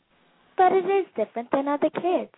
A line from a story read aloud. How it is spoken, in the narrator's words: said Oni brightly